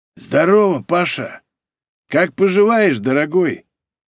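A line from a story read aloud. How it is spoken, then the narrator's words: Husky male baritone. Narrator (Russian): Сиплый мужской баритон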